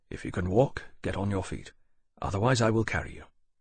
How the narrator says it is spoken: Lawrence told him very quietly

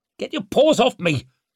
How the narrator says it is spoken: snapped Leo

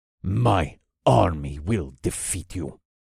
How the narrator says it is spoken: Krakair hissed

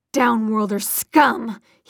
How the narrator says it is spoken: he spat

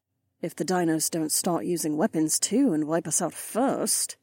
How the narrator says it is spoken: Kat muttered

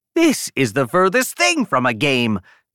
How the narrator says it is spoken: Jan yelled, switching right back to her remarkably intense tone

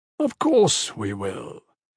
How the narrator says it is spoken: Andros said smoothly

